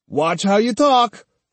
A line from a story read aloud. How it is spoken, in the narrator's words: snapped Kojiro